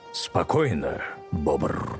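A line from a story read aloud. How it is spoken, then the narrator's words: Quiet growl. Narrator (Russian): тихо прорычал Аслан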